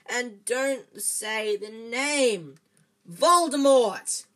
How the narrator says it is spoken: Harry bellowed

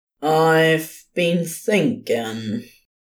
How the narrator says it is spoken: Liga said slowly

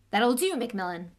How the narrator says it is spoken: said Professor McGonagall sharply

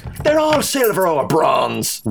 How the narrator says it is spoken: whined O'Rowby

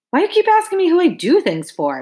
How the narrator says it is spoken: I snapped, mainly because I didn't play ball for nobody

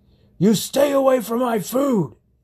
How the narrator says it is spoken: bellowed

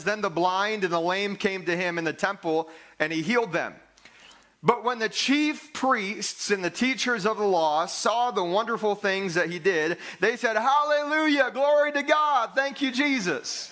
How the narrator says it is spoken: the children shouting

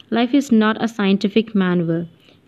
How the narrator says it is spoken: he replied coldly

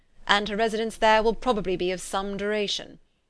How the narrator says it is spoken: said her father dryly

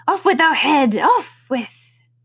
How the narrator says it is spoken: turned crimson with fury, and after glaring at her for a moment like a wild beast, began screaming

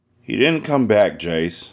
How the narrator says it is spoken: I sighed

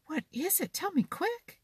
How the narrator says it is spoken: begged Johnny

